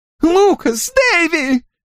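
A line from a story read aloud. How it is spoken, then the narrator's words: Hysterical shriek. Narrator (Russian): истерически взвизгнул мистер Норрелл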